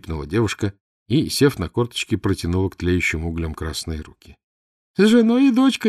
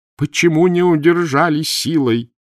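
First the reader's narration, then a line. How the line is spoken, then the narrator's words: Groaning. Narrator (Russian): простонал Кахановский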